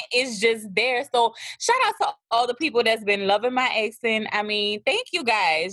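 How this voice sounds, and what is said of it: Thick New Orleans accent. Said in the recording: “y'all love my accent... sometimes it's a little it's thick. I mean, it's thick, but I'm from New Orleans”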